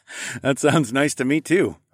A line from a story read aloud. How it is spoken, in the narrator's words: I laughed